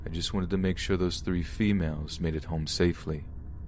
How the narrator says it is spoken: he replied very calmly

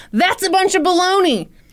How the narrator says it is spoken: he yelled

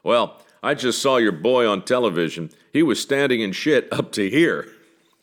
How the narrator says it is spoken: The elderly gentleman saying in a gruff, booming voice

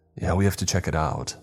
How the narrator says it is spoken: I said urgently

